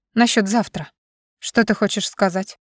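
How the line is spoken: Heavy tearful sigh. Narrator (Russian): тяжело выдохнула я, почувствовав, как мои заплаканные глаза щиплет

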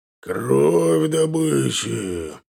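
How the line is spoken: Wolf's growl. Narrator (Russian): прорычал волк

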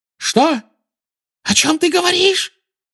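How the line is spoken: Shrill squeal. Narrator (Russian): взвизгнула

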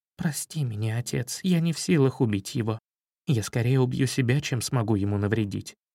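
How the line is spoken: Pained whisper. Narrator (Russian): скривилась от мучительной боли и прошептала

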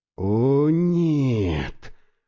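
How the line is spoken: Whisper. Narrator (Russian): прошептал я

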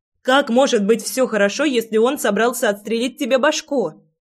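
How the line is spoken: Girl shouting. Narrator (Russian): кричала девчонка

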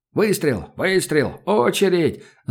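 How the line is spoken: Ragged group shouting. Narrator (Russian): заорали в разнобой бойцы

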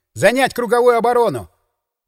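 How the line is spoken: Shouted command. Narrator (Russian): крикнув

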